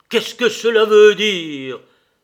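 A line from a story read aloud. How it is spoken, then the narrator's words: Indignant surprised exclamation. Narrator (French): s'écria-t-il avec la surprise de l'indignation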